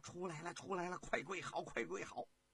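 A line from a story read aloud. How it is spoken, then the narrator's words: Hurried call. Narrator (Chinese): 李荣啊急忙的招呼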